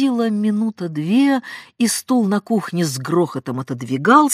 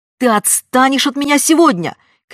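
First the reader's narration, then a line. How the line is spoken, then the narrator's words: Exhausted shouting. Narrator (Russian): кричала мать измученным голосом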